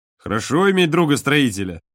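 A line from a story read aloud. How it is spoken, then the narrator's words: Laughing. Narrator (Russian): засмеялся Женя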